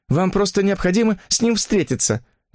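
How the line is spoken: Exclaimed. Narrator (Russian): воскликнула

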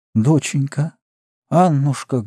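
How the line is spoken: Muffled faltering, sick woman. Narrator (Russian): глухо и невнятно запинаясь, сказала больная

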